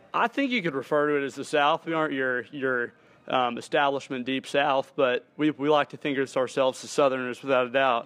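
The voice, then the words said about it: Southern Texas twang. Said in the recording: “You got that twang for sure”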